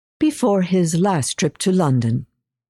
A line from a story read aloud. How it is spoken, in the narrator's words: I said, careful to keep my voice light